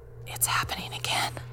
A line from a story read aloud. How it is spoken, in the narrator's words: She was really quiet, then whispered